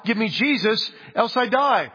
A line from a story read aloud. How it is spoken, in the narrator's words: you cried out